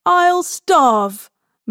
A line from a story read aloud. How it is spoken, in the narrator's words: Mary shrieks, half delighted by the idea